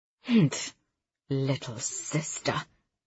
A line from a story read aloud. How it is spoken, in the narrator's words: my mom mutters under her breath